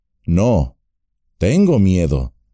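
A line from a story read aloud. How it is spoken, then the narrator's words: Plain. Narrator (Spanish): dijo Frodo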